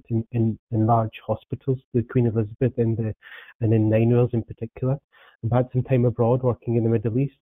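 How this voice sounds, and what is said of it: Scottish accent. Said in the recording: “Predominantly worked in Scotland, as you can tell by the accent”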